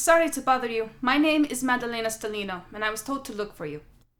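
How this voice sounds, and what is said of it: Italian accent. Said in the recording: “I noticed an accent. German? ... No, I am Italian.”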